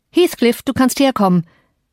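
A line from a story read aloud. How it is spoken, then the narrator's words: Calling out. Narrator (German): rief Mr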